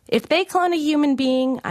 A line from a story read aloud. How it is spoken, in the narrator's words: I shouted back